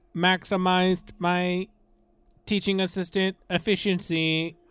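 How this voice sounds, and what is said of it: Robotic voice. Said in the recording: “That's even more annoying than your regular voice ... He's imitating some kind of robot.”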